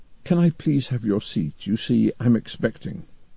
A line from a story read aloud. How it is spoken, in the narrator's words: A young woman whispered to him